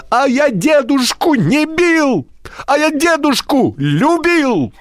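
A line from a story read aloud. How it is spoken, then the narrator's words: Shouting from the doorway. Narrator (Russian): Миша прямо с порога закричал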